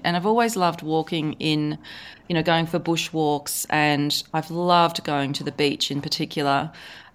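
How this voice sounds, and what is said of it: Australian accent. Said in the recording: “I live in Australia, as you can probably tell from my accent”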